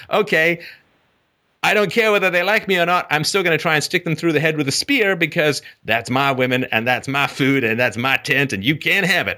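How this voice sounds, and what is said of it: Put-on accent. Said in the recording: “I don't know why that accent shows up, but it does.”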